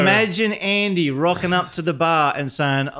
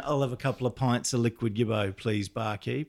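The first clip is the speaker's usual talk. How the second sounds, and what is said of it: Put-on Australian accent. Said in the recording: “Andy an Australian accent”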